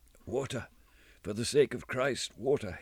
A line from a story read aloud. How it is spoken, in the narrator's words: moaned